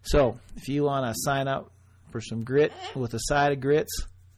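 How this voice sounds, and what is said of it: Put-on Southern accent. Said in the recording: “see how I did that with the southern accent? Makes it more, makes me sound not like”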